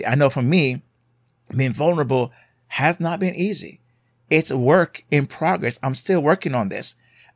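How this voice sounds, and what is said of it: Jamaican accent. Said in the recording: “as you may hear my accent, from Jamaica”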